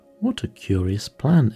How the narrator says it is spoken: exclaimed Alice

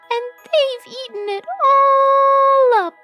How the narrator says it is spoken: squealed the baby bear

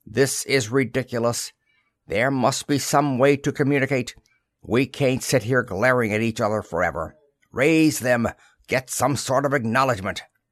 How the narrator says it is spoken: barked the skipper

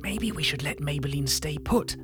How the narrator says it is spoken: I whispered to Magenta

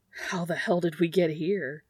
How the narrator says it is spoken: Dean says, gasping

